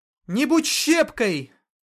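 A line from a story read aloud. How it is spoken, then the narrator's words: Hurried shout. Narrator (Russian): Только и успела крикнуть она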